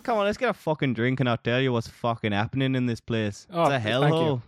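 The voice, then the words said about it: Put-on northern English accent. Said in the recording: “Why did I choose this accent?... It's a northerner.”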